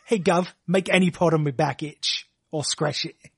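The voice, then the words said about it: Imitates an actor's movie accent. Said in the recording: “That's me doing the Don Cheadle accent from the Ocean's movies.”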